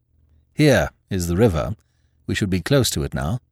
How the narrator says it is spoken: said Hooker

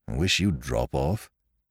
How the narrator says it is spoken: grumbled Parker

